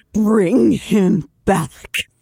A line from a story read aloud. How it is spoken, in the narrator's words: I snarled